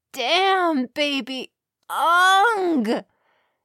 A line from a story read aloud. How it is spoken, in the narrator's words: she moaned as she climaxed